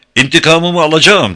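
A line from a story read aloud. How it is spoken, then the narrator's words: Cried out after them. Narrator (Turkish): diye haykırdı arkalarından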